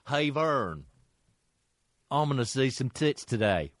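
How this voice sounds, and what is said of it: Imitates another person's voice. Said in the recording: “Worst fucking impression of that guy ever.”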